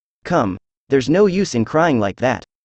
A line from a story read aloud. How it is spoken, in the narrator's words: said Alice to herself, rather sharply